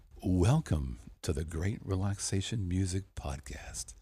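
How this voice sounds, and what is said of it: NPR radio announcer voice. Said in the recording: “I used my best NPR voice.”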